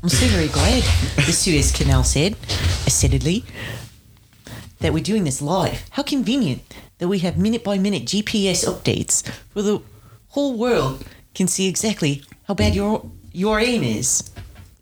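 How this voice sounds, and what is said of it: New Zealand accent. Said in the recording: “Just do one in your New Zealand accent.”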